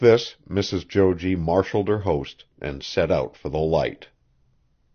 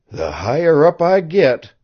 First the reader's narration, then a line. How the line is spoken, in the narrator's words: panted